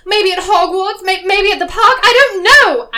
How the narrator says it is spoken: I yelled back

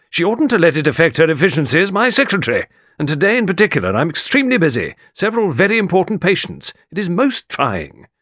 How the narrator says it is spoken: Morley snapped

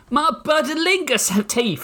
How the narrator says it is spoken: he bellowed

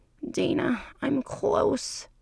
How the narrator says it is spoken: he grunts

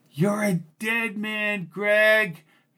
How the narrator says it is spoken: shouted Marco from below

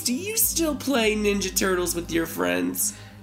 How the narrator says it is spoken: She laughed a little

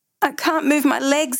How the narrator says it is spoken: Seth cries

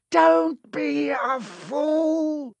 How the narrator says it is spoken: snarled the face

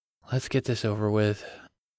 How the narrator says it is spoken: Grant muttered

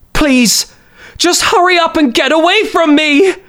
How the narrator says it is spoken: She screamed again

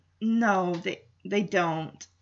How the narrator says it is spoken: Kevin mutters

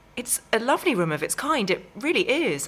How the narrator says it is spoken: I exclaimed

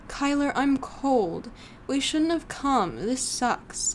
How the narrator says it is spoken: Laura whined

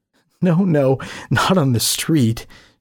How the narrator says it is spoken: said, giggling a little

